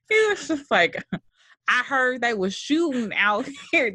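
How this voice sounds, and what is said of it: Failed Oakland accent, sounds country. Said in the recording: “I'm trying to get my Oakland accent. I can't do an Oakland accent. ... That's a very country accent. ... That's country.”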